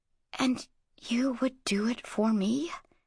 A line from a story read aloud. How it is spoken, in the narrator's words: She whispered